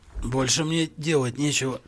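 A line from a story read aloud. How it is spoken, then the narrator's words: Hoarse croak. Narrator (Russian): прохрипел тот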